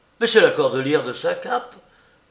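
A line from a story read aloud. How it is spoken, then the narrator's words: Exclaiming. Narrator (French): s'exclama le prosecteur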